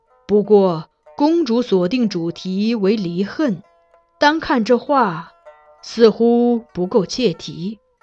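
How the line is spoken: Sighing remark. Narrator (Chinese): 欧阳修观后感叹，又道

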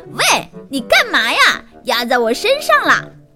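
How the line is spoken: Displeased shout. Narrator (Chinese): 一本书不满地喊起来

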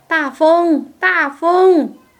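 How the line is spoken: Shouting. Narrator (Chinese): 他喊的是

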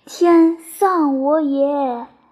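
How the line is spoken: Long despairing sigh. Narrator (Chinese): 蜀兵为进退无路，长叹曰

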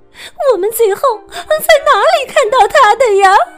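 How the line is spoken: Tearful whimpering question. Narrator (Chinese): 松鼠哭哭啼啼的问

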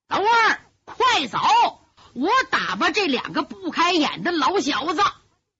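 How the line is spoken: Loud roar. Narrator (Chinese): 窦立大吼一声

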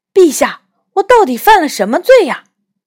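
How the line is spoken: Confused, hurried question. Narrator (Chinese): 完全搞不清楚发生了什么事，急忙问国王

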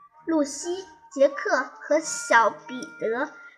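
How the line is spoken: Frowning mutter to herself. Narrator (Chinese): 彼得斯妈妈眉头微微皱，自言自语，小声嘀咕

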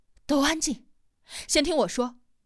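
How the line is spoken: Panting, loud. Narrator (Chinese): 他喘着粗气，大声的说道

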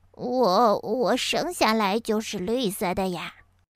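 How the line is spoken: Embarrassed low voice. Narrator (Chinese): 哈瓦尔不好意思的低声说

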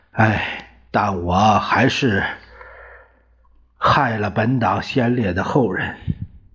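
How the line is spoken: Sighing. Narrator (Chinese): 张治中叹了一口气

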